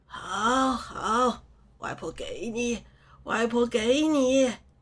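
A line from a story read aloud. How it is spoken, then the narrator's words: Delighted grandmother laughing. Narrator (Chinese): 外婆乐开了花，笑道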